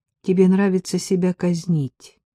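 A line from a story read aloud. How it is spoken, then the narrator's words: Calm reply. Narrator (Russian): ответила спокойно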